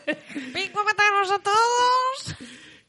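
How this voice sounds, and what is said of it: Squeaky high-pitched character voice. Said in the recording (Spanish): “voz de pito”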